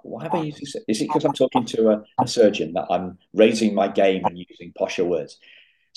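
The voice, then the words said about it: British accent. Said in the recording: “you're British. You're British too, so you automatically, whatever you say sounds smarter because you're a Brit. That accent.”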